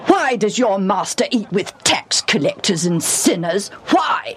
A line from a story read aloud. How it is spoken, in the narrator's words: said fiercely